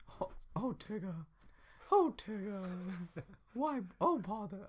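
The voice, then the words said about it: Cartoon bear character voice. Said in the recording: “my Winnie the Pooh impression ... Your Winnie the Pooh's pretty good.”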